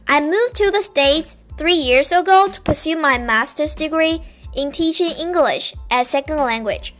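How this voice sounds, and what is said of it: Chinese-accented English. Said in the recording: “I was originally born in China. English is my second language, so if you hear any accent or mispronunciation”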